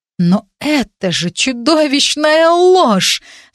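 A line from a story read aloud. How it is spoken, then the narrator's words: Admiring exclamation. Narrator (Russian): с восхищением воскликнула Агнес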